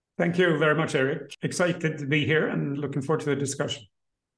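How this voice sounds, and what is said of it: Swedish accent. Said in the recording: “Swedish accent”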